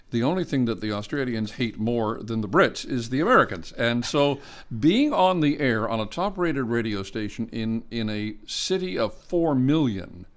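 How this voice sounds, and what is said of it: West Coast Canadian accent, flat broad vowels. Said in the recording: “my on-air accent or my speaking accent, my voice, I guess, was honed, refined, whatever phrase you wish to use, on the west coast of Canada. And so I have a tendency to have a little bit flatter, broader pronunciation of words, and I am easily mistaken for an American.”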